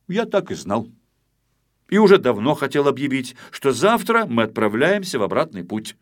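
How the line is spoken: Loud, authoritative. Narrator (Russian): Незнайка, чтобы не забывали, кто тут капитан, громко сказал

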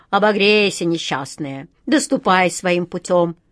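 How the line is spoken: Old man grumbling. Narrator (Russian): проворчал старый адмирал

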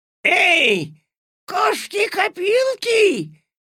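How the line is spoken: Shrill squeal. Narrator (Russian): взвизгнула госпожа Жадность

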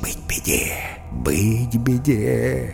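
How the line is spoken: Flamingos whispering together. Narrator (Russian): Фламинго зашептались

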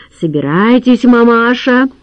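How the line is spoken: Commanding. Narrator (Russian): велел Хохлов

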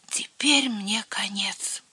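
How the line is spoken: Whispering. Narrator (Russian): прошептал Херби

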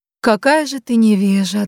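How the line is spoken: Calm, without anger. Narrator (Russian): отвечала волшебница спокойным голосом, безо всякого, впрочем, гнева

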